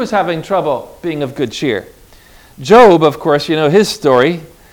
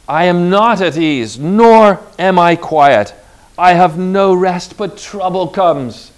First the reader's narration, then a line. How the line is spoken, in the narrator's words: cried Job